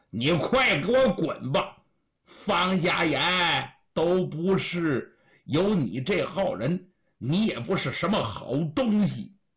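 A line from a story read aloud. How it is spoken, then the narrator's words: Resolute stern shout. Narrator (Chinese): 于是把心一横，厉声喝道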